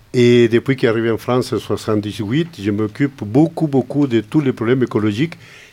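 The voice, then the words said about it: Chilean Spanish accent in French. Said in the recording (French): “je viens de loin, avec mon accent. Je suis d'origine chilienne.”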